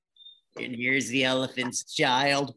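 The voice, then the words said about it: Bad Jack Nicholson impression. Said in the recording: “I was trying to think if I could do a Jack impression. ... Yeah, that's really bad, I know. ... my Jack Nicholson's a lot like my Clint Eastwood and my Lee Van Cleef and my Chuck Norris”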